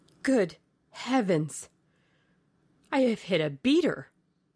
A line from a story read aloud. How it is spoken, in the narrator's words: exclaimed Sir Geoffrey